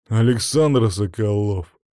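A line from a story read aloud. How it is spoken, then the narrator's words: Rough bass voice. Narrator (Russian): пробасил грубым голосом парень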